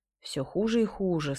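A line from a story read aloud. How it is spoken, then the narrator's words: Plain. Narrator (Russian): сказал Золото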